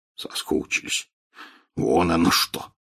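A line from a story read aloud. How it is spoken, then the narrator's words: Snorting, amused. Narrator (Russian): хмыкнул Хагрид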